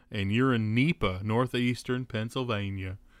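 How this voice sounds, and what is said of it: Put-on hillbilly accent. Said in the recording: “you said it in like a hillbilly accent”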